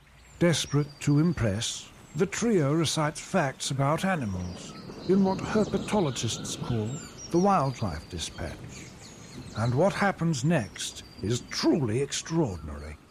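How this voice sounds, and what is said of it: David Attenborough impression. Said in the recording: “me doing an impression of David Attenborough”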